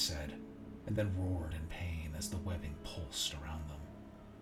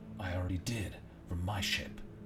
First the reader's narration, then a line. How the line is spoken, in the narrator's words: I replied